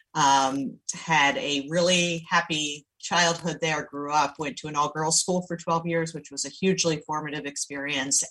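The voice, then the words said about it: Slight Maryland accent. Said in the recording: “I don't have a Long Island accent. I have a little bit of a Maryland accent,”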